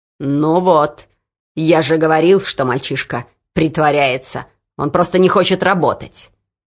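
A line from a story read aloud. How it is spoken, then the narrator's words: Overseer growling. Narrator (Russian): прорычал надсмотрщик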